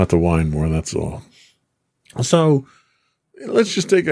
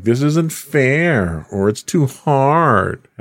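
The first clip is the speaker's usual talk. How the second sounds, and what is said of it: Whiny voice. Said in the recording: “That was my whiny voice. ... It could be whinier, but overall it's not too bad.”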